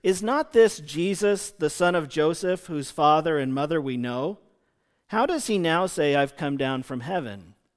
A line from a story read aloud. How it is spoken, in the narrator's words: the people grumbled and asked one another